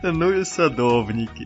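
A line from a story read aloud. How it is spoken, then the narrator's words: Laughing sun. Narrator (Russian): засмеялось на небе солнышко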